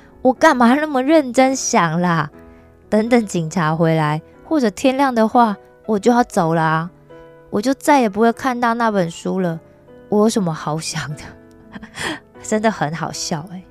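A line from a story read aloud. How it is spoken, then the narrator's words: Rueful laugh. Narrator (Chinese): 罗伊失笑的说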